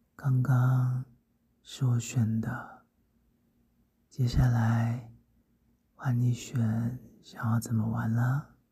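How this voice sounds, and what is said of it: Soft whispered voice. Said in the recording (Chinese): “继续在你耳边。小声的说着”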